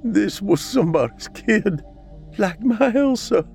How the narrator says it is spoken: Elliot sobbed as he pushed on the teenager's chest with all his might

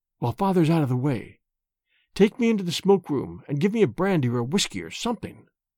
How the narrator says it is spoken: he whispered

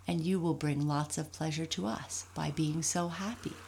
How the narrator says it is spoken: said Raggedy Andy

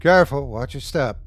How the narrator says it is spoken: Detective Franco said

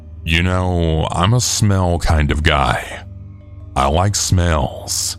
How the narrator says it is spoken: He then says to me in a creepy tone

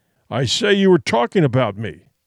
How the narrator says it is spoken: Captain Detmar repeated, this time with almost a snarl

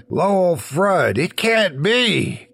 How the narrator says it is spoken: I exclaimed

